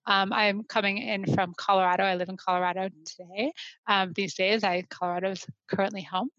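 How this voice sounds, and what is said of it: American accent. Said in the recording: “I am based in the U.S., as you might be able to tell from my accent, or as I like to consider, I don't have one.”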